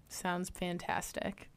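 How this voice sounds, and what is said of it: Flat, unenthusiastic, sick-sounding voice. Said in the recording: “You sound really enthusiastic about it. I know it's because you're sick.”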